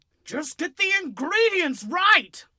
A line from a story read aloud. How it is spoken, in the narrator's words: I screamed